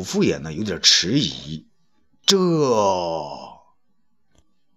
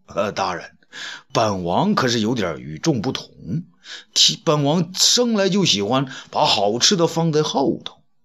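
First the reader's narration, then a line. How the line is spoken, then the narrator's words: Wry smile. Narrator (Chinese): 齐王次昌呢，却苦笑道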